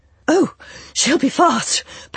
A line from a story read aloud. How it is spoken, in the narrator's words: panted Jonathan Hazel